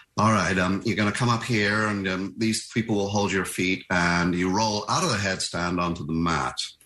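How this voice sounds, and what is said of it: Bad, slightly camp American accent. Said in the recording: “slightly camp American guy ... that's my bad American accent.”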